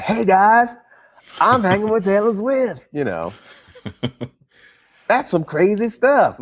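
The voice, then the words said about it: Imitates another person's voice. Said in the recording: “my Chris Rock impression ... It was no perfect. I thought Chris Rock was like here that? In the studio.”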